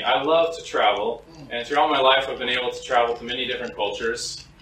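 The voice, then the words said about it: American accent. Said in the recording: “I'm an American. My accent, I'm pretty sure, betrays me.”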